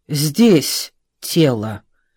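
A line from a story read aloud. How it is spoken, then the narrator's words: Plain. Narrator (Russian): ответил Блюхер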